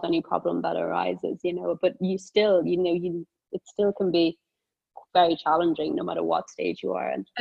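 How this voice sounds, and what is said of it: Southern Irish accent. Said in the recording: “I hear a little bit of an accent... I hear a bit of an accent there... I am Irish, Southern Irish, born in Cork”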